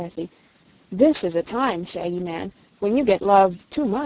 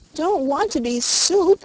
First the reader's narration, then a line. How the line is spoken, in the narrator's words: wailed Button Bright again